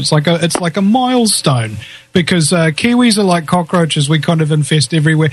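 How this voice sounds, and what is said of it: New Zealand accent. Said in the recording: “I love your accent.”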